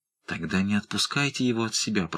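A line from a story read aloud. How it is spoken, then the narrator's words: Exhausted whisper. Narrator (Russian): прошептал Родерик, чья энергия, казалось, истякла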